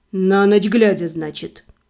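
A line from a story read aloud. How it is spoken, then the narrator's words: Odd snort. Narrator (Russian): Себастьян как-то странно хмыкнул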